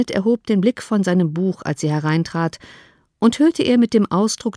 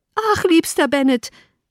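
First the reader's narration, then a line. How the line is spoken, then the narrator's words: Called out. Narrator (German): rief beim Eintreten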